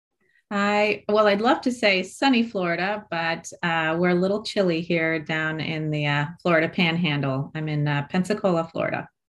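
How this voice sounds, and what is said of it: American accent. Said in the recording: “I can tell by the accent you're over the pond”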